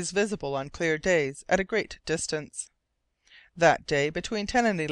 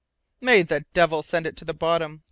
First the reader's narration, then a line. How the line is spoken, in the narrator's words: cried Roger